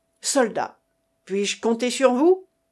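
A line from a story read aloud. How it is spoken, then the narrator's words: Exclaimed. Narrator (French): s'écrie Jacques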